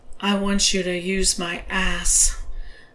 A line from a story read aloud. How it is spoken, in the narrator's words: admitted in a lower tone